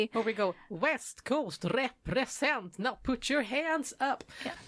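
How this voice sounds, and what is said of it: Singing in a Gothenburg accent. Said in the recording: “that was me trying my best to sing with a Gothenburg accent”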